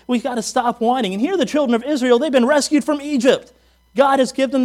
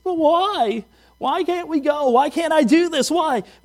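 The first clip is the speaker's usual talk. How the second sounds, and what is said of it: Whiny childlike voice. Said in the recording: “start whining ... You know that little whiny voice.”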